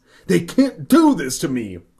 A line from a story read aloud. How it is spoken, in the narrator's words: I exclaimed